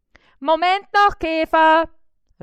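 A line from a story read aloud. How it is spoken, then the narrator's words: Called out. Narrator (German): rief Bissi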